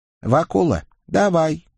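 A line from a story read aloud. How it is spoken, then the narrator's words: Calm request. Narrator (Russian): спокойно, ежели вообще неравнодушно, попросил Николя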